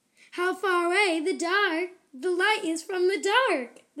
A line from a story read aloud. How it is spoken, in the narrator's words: the judge exclaimed